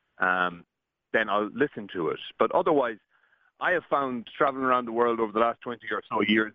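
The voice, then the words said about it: Irish accent. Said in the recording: “you actually do it in your own accent ... there are Irish people everywhere”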